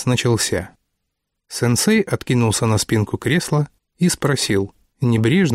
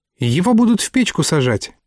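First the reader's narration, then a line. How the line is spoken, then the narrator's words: Quick, happy reply. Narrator (Russian): немедленно откликнулся Алик и радостно заулыбался, ужасно довольный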